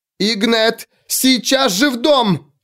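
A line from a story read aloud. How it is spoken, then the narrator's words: Mother yelling. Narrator (Russian): завопила мама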